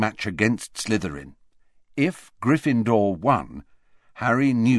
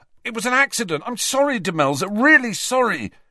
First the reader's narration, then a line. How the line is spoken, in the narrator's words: Ron shouted after her